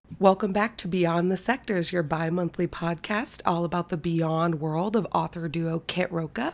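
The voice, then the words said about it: Scratchy, sick-sounding voice with vocal fry. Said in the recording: “vocal fry ... I am sick, or have just recently been sick ... a scratchy throat”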